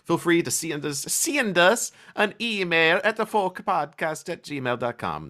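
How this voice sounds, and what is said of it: Weird, shifting put-on accent. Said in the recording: “That was a weird accent, and it changed 6 times when I was saying it.”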